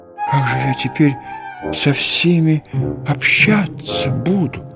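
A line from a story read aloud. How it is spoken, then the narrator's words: Frightened whisper. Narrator (Russian): Он побледнел и прошептал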